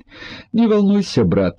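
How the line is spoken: Laughing. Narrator (Russian): засмеялся Мажун

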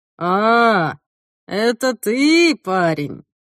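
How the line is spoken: Drawled. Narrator (Russian): протянул афроамериканец

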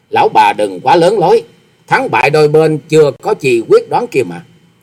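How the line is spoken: Scornful sneer. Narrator (Vietnamese): Hoa Sĩ Kiệt gầm mặt cười khẩy nói

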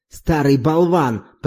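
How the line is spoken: Growling woman. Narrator (Russian): прорычала госпожа Маломатенья

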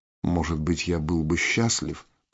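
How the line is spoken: Whisper. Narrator (Russian): прошептал Виктор

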